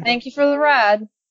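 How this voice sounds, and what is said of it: Fake accent. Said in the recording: “Is that a fake accent? That's incredibly offensive.”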